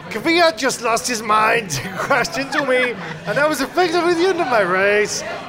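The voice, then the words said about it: Magnussen impression, Bobcat Goldthwait-style Danish. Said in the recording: “your best Magnussen impression ... I don't know what Danish sounds like, but I'll give it a go ... I basically figured that Danish was like Bobcat Goldthwait from Peace Academy.”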